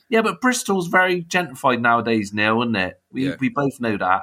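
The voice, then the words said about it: Bristolian accent. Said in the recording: “I'm probably the only one down on a Bristolian accent.”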